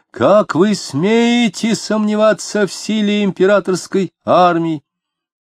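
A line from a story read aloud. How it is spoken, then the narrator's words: Piercing shout. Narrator (Russian): кто-то пронзительно закричал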